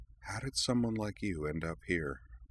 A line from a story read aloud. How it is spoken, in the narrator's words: he inquired softly, almost under his breath